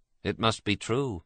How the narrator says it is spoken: said Michael gloomily

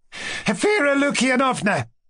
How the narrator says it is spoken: Ippolit hurriedly begged her

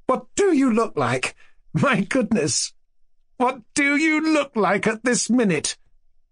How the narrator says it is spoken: Her laughter lasted several minutes

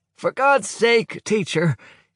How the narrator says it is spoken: shouts out of the distance

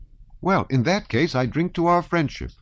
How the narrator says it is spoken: he cried gaily

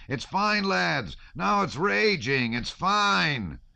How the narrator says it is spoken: The man in the frieze coat raised his arms and shouted

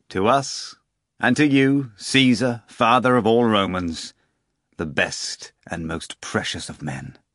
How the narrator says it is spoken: the procurator pronounced loudly

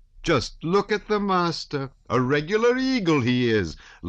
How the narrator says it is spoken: loudly remarked the nurse

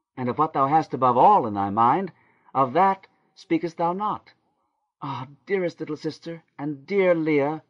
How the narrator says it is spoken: she cried, beginning to wheedle her and to beg as a child does

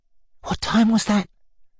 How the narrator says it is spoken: She started, and with an indescribable look of heartsick anguish, she whispered

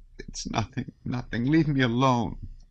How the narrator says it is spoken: sobbed Sonya

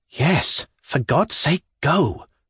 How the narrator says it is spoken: whispered a second voice in my left ear

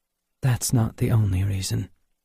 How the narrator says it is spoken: said Helen calmly

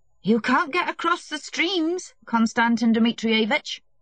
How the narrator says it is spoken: the coachman shouted

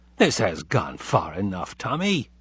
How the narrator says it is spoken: said Abe rather sharply, and then, in a more conciliatory tone

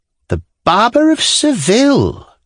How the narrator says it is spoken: cried grandmother

